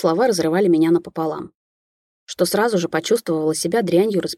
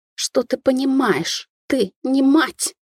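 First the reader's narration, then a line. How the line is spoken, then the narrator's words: Through gritted teeth. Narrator (Russian): процедила женщина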